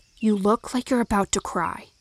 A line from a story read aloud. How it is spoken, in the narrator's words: Lo whispered in my ear